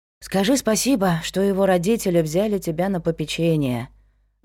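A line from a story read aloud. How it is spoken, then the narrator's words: Sigh. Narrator (Russian): вздохнула Дафна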